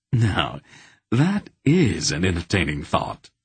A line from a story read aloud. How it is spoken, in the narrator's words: Silk chuckled